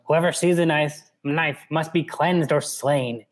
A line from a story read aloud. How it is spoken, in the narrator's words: she snarled